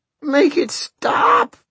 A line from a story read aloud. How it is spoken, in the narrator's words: sobbed Fidelito